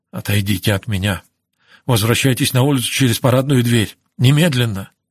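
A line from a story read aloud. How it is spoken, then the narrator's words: Hurried low voice. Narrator (Russian): Израиль торопливо сказал ей тихим голосом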